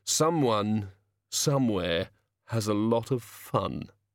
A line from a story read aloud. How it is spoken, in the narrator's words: he said wistfully